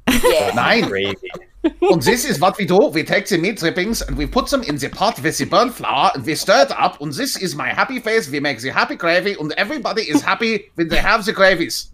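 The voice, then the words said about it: Mean-sounding put-on German accent. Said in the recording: “Can you say that in a German accent? ... what kind of German accent? Do you want the nice German or the mean German accent? ... I want the mean German.”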